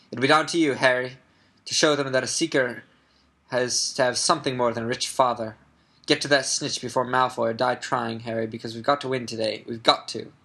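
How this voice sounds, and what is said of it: Poorly done put-on accent. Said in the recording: “I totally botched that accent.”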